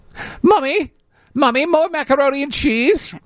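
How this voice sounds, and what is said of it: Slight British accent. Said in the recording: “starting to speak in a slight British accent.”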